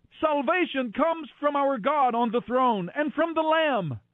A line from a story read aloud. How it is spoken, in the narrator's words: they were shouting with a mighty shout